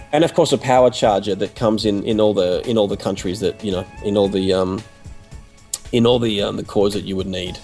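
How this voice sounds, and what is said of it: Husky voice, losing his voice. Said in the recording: “because I've got a bit of a cold. So if I sound a little bit different ... that sexy husky thing going on ... I'm losing my voice”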